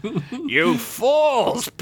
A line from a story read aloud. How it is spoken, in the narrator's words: Bugfoot said, laughing